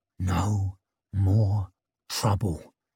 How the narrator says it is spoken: whispered

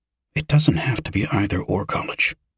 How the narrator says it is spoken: Yosef whispered

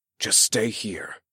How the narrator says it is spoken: whispered

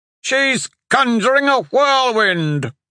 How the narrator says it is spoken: Hatch shouted

